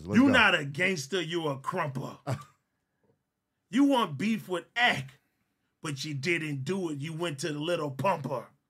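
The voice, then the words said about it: Imitates another person's voice. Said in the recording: “I'm doing my China man voice.”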